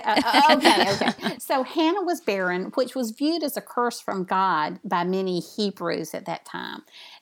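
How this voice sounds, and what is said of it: Southern US accent. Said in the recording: “I have a Southern accent. I may be butchering these names”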